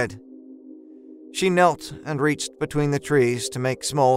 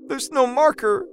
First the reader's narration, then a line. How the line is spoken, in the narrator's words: she whimpered